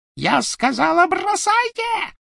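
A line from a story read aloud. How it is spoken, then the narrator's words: Shrieking. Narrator (Russian): провизжала Беллатриса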